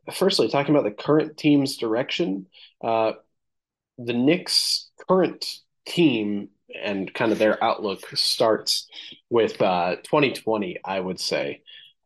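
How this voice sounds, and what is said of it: Strained, slightly hoarse voice. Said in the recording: “Kind of losing my voice a little bit”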